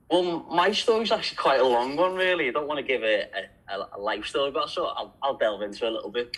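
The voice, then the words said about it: Fast Liverpool English accent. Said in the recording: “a bit of a different accent ... I'm from Liverpool. A lot of people think I'm Irish ... Got quite a quick accent.”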